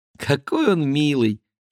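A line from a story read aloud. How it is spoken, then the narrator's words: Small child giggling. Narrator (Russian): хихикает малютка Мол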